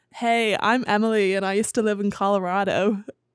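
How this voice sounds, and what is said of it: Attempted American accent. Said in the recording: “can you do an American accent? ... You're getting there.”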